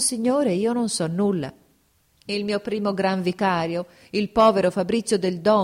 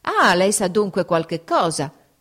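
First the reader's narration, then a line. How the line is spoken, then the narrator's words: Exclamation. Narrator (Italian): esclamò l'arcivescovo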